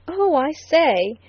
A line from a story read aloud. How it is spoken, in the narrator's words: cried the lawyer delightedly